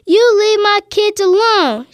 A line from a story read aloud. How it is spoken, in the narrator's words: she yelled